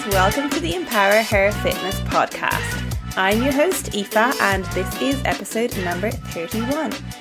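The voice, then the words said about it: Irish accent, soft TH sounds. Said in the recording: “you are definitely going to hear my Irish accent come through a bit more as I practice saying all of the numbers that start with 30 and pronounce my THs, which we don't do very well in Ireland”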